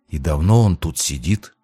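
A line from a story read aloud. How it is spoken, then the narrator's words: Whispered question. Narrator (Russian): кто-то спросил шепотом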